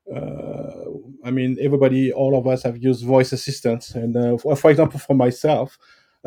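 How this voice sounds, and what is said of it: French accent speaking English. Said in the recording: “you may have noticed I have a French accent.”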